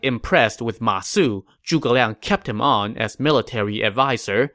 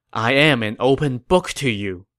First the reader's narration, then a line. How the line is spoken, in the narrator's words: Zhuge Liang sighed and said